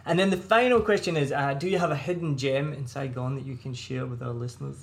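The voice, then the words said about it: Scottish accent, hard to understand. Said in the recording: “It's my Scottish accent... native speakers can't understand me... a me problem with my accent”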